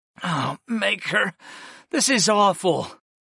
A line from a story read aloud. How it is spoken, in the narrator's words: I groaned as another pang ran through my head